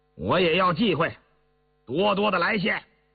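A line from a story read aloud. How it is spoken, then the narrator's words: Loud. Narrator (Chinese): 大声说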